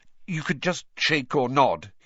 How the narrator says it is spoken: he added hastily, as Dobby's head tilted worryingly close to the wall again

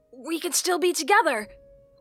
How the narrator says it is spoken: Link blurted out

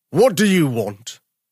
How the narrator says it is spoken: roared

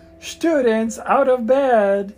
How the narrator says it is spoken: Peeves bellowed

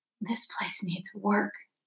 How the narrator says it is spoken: Doon whispered to his father

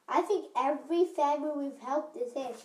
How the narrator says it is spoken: she said happily to Rachel

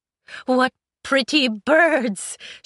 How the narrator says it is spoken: she said, before she was overcome with a fit of incoherent giggles

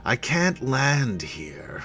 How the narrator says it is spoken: Flameburst explained with a sigh

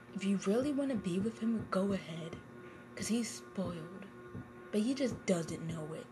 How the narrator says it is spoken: In a mad voice, he said in a mad voice again

